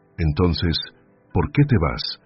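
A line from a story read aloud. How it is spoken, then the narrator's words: Trembling voice. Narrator (Spanish): preguntó Julia, con la voz temblorosa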